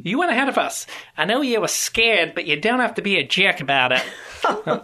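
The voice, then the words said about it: Put-on Australian accent. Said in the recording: “Sorry, Australians. That was my best effort here. ... in that Australian tone”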